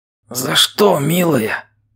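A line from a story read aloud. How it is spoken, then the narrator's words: Hurt whisper. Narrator (Russian): с обидой прошептал он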